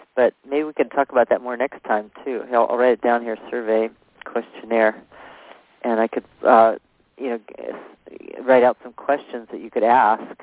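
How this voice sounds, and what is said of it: Hoarse, fading voice. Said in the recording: “my voice is kind of going out here because I have a cold.”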